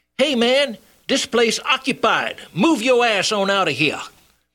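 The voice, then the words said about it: Shouted imitation ghetto accent. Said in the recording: “his best imitation ghetto accent, he shouted”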